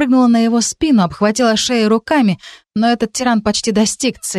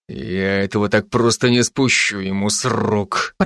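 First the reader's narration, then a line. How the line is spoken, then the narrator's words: Growling. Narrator (Russian): прорычал Райан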